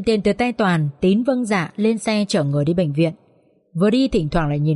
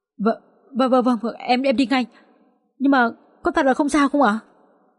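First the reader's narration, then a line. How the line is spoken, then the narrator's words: Trembling voice. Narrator (Vietnamese): Tín run run giọng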